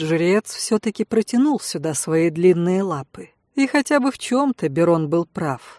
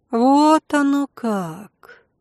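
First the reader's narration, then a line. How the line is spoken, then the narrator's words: Drawn-out drawl. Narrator (Russian): протянула я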